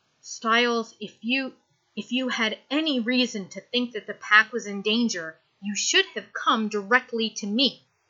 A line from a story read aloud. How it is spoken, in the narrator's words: Her voice shaking with rage, she says